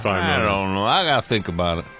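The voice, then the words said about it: Impression of Matthew Stafford. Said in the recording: “It's a very good impersonation there.”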